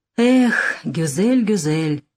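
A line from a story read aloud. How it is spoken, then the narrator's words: Grumbling. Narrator (Russian): проворчал Нессельроде-младший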